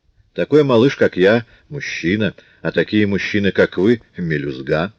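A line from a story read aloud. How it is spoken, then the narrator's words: Plain. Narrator (Russian): ответил он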